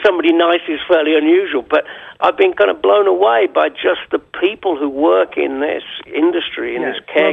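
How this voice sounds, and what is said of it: British accent. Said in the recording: “You'll be able to match your British accent when our show goes on.”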